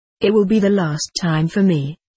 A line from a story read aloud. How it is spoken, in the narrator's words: he replied